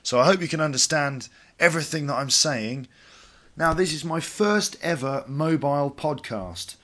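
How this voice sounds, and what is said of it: Congested voice from a cold. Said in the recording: “I've got a bit of a cold at the moment, so my voice is a bit strange.”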